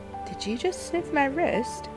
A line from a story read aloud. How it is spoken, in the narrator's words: asked with a soft laugh